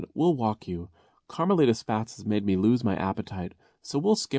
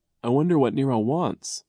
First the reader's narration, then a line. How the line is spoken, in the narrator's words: Klaus said, yawning